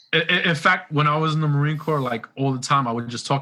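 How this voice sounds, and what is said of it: New York accent. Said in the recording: “I love your accent. I I love a New York accent.”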